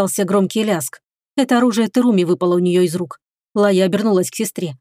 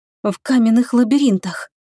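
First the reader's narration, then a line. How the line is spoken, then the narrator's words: Hoarse faltering babble. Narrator (Russian): севшим голосом пролепетала Лая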